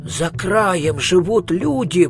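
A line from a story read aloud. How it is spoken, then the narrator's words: Exclaiming wizard. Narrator (Russian): воскликнул волшебник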